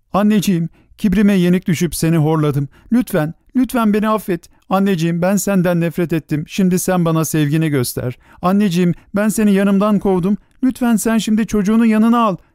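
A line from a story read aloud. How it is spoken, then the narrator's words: Begging. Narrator (Turkish): diye yalvarıyordu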